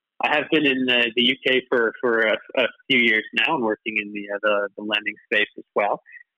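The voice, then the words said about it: Canadian English accent. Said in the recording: “I don't know if you can tell from my accent, but I'm not from here originally. I'm actually Canadian.”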